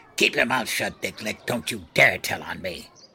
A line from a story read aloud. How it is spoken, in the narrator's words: growled